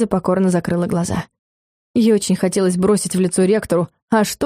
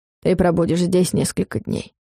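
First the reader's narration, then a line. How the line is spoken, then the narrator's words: Dry statement. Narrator (Russian): сухо сказал Варус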